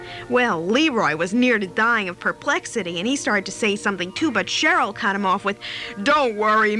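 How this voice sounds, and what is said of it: Usual voice. Nothing is said of it.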